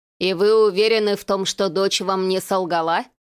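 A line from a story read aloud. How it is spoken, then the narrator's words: Investigator's skeptical snort. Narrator (Russian): хмыкнул следователь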